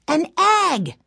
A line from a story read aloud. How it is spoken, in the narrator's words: shouted Benny